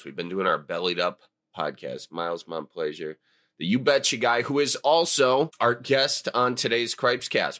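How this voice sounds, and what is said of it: Strained voice, possibly sick. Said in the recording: “Excuse the voice. ... I don't know if I'm sick or just I did a slew of shows over the weekend”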